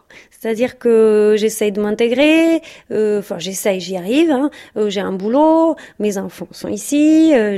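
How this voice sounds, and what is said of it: Italian accent speaking French. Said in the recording (French): “j'ai un accent italien quand je parle français”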